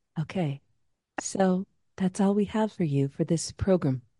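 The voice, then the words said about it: NPR radio host voice, Terry Gross. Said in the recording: “I'm going into my NPR voice. ... Okay, Terry Gross.”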